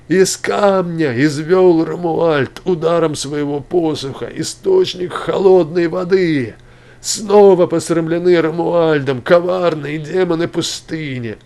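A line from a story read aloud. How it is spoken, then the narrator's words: Crowd shouting loudly. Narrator (Russian): люди, обманувшие свой голод небывалым пшеном, закричали громко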